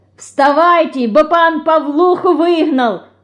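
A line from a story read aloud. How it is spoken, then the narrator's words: Shouting. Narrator (Russian): закричала она, врываясь в комнату мышки и Динки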